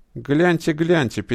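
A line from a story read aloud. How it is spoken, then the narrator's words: Sudden angry whisper. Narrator (Russian): перебивая завхоза, вдруг зло зашептала Титова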